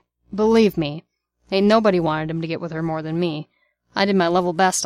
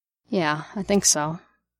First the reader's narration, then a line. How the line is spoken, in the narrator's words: Barnes muttered